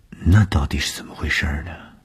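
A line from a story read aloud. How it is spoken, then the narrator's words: Blushing mumble. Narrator (Chinese): 东风的脸上飞过红晕，喃喃地说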